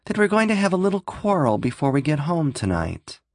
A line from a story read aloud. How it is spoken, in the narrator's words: Julie said tightly